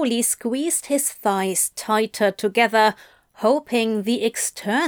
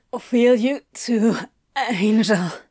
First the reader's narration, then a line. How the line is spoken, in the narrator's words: said, half the words lost on a groan